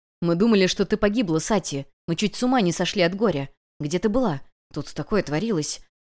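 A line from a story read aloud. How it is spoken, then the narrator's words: Whisper. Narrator (Russian): шептал Тирен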